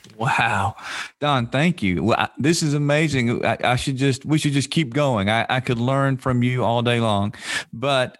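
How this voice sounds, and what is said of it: Smooth Southern American accent. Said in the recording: “that awesome, smooth as silk, Southern accent”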